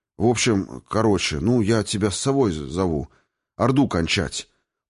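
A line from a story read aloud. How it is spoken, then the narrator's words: Embarrassed, forced-out words. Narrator (Russian): Покраснев не только лицом, но даже кожей темени и затылка, выдавил из себя Аратарн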